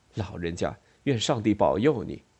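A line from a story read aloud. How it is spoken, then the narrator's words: Soft voice. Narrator (Chinese): 他轻声说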